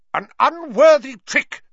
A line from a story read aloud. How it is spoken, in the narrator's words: she was shouting